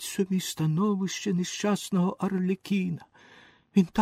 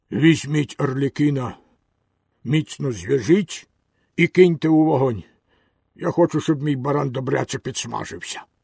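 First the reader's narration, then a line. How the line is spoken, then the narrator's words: Hoarse command. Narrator (Ukrainian): Хазяїн наказав хрипким голосом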